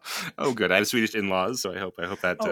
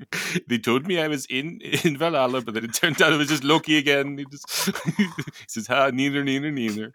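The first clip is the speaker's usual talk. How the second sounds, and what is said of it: Put-on Swedish accent. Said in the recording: “your Swedish accent is so much better than mine”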